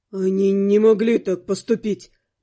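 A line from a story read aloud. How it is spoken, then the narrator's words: Muttered. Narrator (Russian): пробормотал парень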